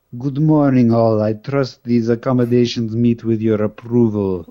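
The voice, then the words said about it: Deep voice like Colossus. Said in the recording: “That's Colossus. but you're on the right target. Somehow you got to get the high voice in with that”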